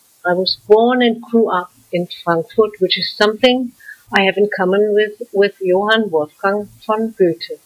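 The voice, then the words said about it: German accent in English. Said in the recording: “I'm German, and I think I can't deny it because of my German accent.”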